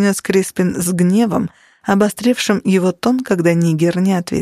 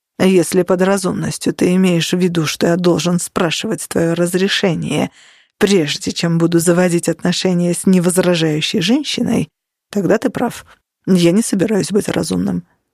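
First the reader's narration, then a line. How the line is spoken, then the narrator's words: Plain. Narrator (Russian): ответил Нигер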